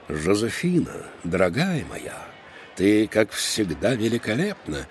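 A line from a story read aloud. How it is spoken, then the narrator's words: Purring. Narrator (Russian): промурлыкал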